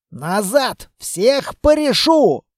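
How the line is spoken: Wild altered yell. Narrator (Russian): заорал не своим голосом лейтенант

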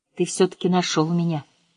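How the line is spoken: Tender, gentle. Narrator (Russian): нежно сказала Лаура

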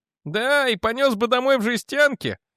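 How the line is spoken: Snorting. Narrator (Russian): фыркнул Ральф

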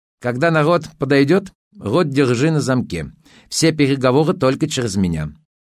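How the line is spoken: Stern warning. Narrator (Russian): строго предупредил он Надю

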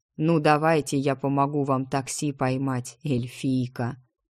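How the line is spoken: Snorting. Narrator (Russian): Он хмыкнул

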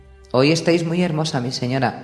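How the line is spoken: Plain. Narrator (Spanish): dijo Sir Aerys

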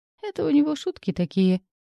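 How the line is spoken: Snort. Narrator (Russian): хмыкнул Лир

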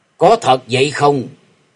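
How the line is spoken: Old man, cold question. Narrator (Vietnamese): Lão nhân áo đen lạnh lùng hỏi

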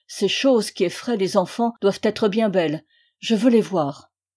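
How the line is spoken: Exclaimed. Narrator (French): s'écria-t-il

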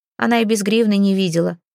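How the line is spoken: Boy's scoffing snort. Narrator (Russian): хмыкнул другой мальчик

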